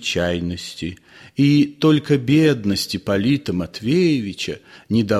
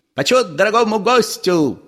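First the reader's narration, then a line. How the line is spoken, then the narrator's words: Rapid shouted patter. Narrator (Russian): прокричал он скороговоркой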